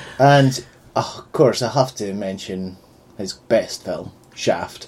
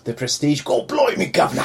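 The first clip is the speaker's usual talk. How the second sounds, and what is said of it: Bad put-on Welsh accent. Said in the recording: “I'm from Wales. Why is this accent so bad?”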